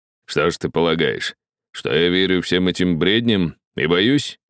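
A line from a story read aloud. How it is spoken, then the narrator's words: Angry mutter. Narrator (Russian): пробурчал он сердито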